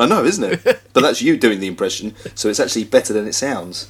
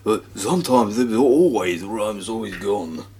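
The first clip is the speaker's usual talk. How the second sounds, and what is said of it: Imitates another person's voice. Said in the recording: “do an impression of me doing an impression about some rum? ... That was quite good.”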